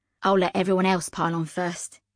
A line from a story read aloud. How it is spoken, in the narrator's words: said